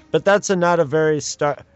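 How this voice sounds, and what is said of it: Put-on Italian accent. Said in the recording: “I'm sorry, I went into Italian accent.”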